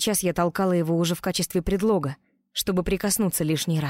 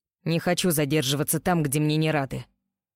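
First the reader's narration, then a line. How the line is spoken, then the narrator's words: Grumbling. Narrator (Russian): проворчал Роу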